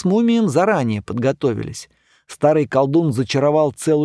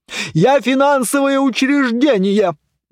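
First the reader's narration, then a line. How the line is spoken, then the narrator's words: Yelling. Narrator (Russian): вопила казна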